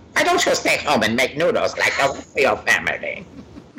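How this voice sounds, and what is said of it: Imitates another person's voice. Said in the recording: “That's actually a really good impression”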